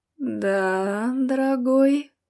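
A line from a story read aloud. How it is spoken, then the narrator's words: Languid young woman. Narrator (Russian): томным голосом ответила девушка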